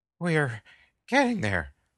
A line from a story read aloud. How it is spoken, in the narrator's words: Mont panted